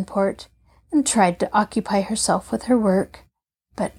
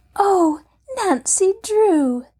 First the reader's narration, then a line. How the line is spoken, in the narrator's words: the girl cried excitedly